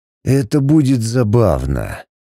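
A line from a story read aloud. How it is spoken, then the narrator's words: Hoarse rasp. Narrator (Russian): прохрипел он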